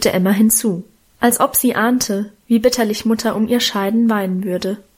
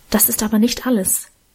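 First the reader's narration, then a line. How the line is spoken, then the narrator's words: Whispered. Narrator (German): flüsterte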